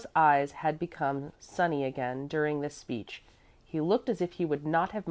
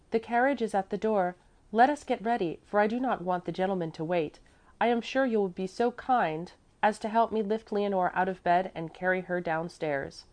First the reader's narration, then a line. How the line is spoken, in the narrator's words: Miss Remke called out on entering